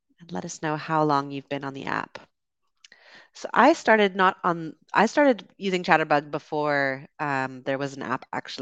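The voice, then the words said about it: Canadian accent. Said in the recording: “I'm from Canada. That's the accent you're hearing.”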